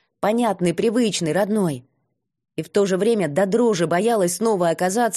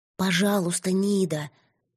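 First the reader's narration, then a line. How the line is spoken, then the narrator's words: Girl's hopeless whisper. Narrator (Russian): Девичий шепот, полный безнадежной тоски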